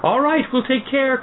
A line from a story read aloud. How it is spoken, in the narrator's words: cried the girls